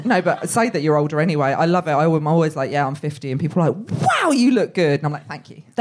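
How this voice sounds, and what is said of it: Unsophisticated-sounding British accent. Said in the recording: “with my accent, nothing can sound or look sophisticated”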